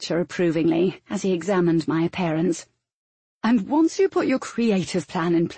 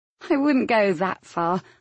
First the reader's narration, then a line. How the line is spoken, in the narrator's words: I chuckled